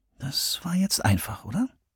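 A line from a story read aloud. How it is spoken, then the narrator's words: Conspiratorial whisper. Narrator (German): grinste Christopher ihr verschwörerisch zu und flüsterte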